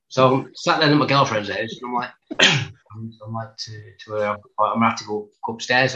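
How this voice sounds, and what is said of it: English accent with Black Country traces. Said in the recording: “My accent's a little bit of black country left in it, scattered with everything from all around the country.”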